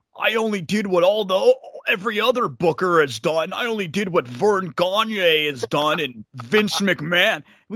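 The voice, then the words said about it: Imitates another person's voice. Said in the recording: “That's a good impersonation too. ... It wasn't bad. I thought it was better than I thought. ... it got better as it went on.”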